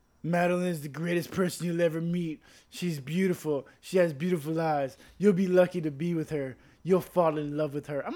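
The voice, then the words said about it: Donald Trump impression. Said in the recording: “that your Donald Trump impression?”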